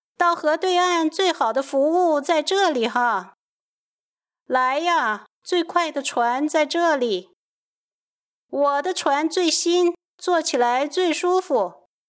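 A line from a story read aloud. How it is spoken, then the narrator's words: Boatmen's loud hawking cries. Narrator (Chinese): 船夫们都大声地吆喝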